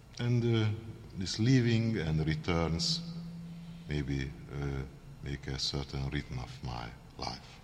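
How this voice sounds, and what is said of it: Heavy Hungarian accent. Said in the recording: “my heavy Hungarian accent”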